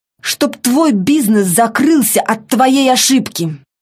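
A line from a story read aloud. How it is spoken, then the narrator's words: Sharp and angry. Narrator (Russian): Слова прозвучали в тишине очень резко и зло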